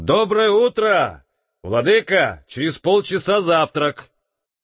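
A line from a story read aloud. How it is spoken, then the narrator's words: Shout. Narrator (Russian): крикнул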